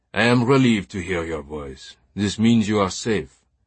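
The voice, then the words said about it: French accent character voice. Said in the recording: “the teacher's familiar French accent said.”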